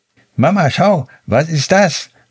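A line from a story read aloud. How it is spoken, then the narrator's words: Calling out. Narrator (German): rief sie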